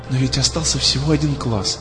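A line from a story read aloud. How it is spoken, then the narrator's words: Trembling whisper. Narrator (Russian): шептала ему Алиса дрожащим голосом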